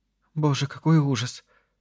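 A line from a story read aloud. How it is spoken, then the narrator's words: Sobbing. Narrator (Russian): всхлипнула Нора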